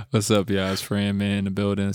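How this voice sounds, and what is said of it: Put-on sexy voice. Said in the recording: “Sexy voice.”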